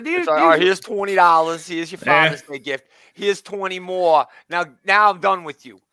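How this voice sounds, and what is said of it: Thick Brooklyn accent. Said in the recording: “doing David's characteristic thick Brooklyn accent there.”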